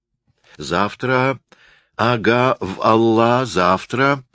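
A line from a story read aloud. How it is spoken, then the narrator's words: Toothless mumble, earnestly persuasive. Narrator (Russian): стараясь придать своему голосу особенную убедительность, зашамкал Мустафа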